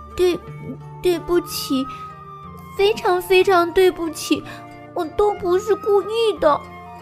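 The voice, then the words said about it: Very small, quiet voice. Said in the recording (Chinese): “用很小的声音说”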